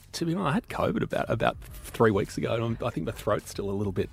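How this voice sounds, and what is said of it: Throaty, hoarse voice. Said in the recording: “You're losing your voice. ... you sound a bit throaty.”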